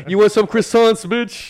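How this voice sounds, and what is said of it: Put-on New Jersey accent. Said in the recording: “I went for the Jersey accent for that”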